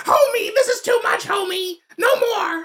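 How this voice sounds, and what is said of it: Imitates a cartoon character's voice. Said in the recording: “my Marge impression from The Simpsons ... that's actually like a really good Marge”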